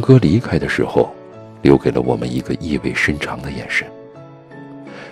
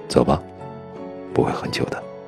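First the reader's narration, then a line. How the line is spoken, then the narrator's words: Soft, falsely gentle. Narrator (Chinese): 他温柔的一笑，像是看着小红帽的大灰狼那样温柔，轻声说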